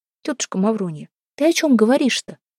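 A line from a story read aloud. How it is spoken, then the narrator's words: Soft question. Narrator (Russian): мягко спросила Устинья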